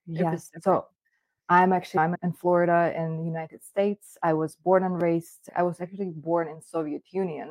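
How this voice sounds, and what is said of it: Speaks English with an accent. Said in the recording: “you have an accent.”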